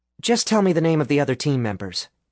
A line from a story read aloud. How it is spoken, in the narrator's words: Alice said, a twitch too quickly to pass over Nick's comment nonchalantly